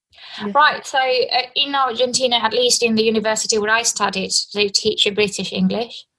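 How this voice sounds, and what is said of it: British-accented English. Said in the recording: “British accent.”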